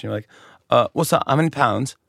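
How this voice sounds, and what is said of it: Put-on British accent. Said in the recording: “I would pretend to be British ... That was my accent.”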